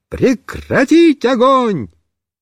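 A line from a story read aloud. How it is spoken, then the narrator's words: Shouting. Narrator (Russian): я крикнул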